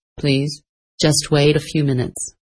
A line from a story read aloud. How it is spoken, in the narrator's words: said kindly